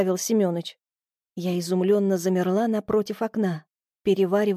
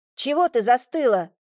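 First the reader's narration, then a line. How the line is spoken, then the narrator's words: Shout. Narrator (Russian): крикнул Семёныч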